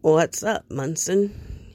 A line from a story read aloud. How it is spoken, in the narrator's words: he says, his voice clogged with sleep